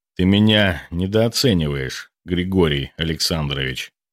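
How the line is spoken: Cold. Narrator (Russian): холодно произнес он

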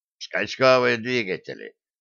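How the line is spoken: Gloomy grumble. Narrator (Russian): хмуро буркнул гном

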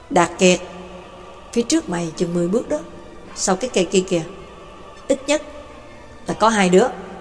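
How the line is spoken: Soft low voice. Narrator (Vietnamese): Hồ Tử khẽ nói

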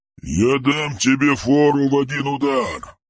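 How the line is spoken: Growled reply. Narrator (Russian): прорычал в ответ

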